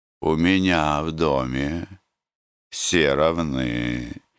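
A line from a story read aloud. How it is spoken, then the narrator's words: Gentle remark. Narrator (Russian): мягко заметил жареный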